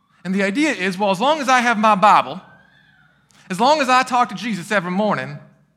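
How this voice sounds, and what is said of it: Poor put-on Southern accent. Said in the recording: “I don't know why I went into the Southern accent. My Southern accent's horrible.”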